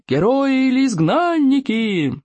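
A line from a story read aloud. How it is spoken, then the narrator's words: Crowd yelling. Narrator (Russian): завопили зрители из племен лохматых хулиганов и безжалостных остолопов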